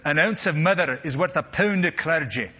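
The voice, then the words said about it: Weak put-on Scottish accent. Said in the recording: “the Scottish have a saying ... they say it much better ... that was a lame accent”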